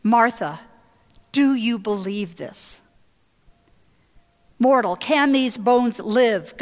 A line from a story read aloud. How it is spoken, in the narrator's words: God asks Ezekiel